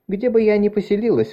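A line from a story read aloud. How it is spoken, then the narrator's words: Sighing. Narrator (Russian): вздохнула Марис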